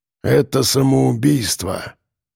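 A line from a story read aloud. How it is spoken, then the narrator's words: Gloomy raven's voice. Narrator (Russian): мрачно сказал ворон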